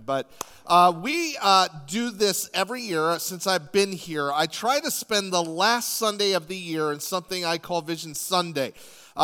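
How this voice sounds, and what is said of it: Raspy, slightly deeper voice. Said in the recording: “I'm a little raspy today. I'm still getting over this cold thing ... It makes my voice sound a little more masculine”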